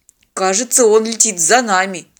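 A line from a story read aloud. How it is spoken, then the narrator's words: Dejected voice. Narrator (Russian): упавшим голосом сообщил пилот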